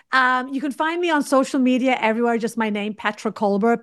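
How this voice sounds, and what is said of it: British accent. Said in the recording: “a person with a British accent”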